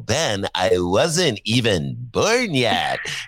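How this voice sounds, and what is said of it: Imitates a millennial's voice. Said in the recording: “that's my millennial imitation.”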